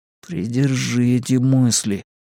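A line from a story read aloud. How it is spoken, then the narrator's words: Grim, to himself. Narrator (Russian): мрачно сказал он себе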